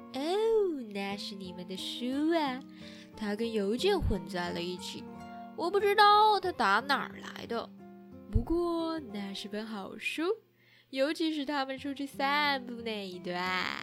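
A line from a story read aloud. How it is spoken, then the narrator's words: Murmuring. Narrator (Chinese): 韩森喃喃了一声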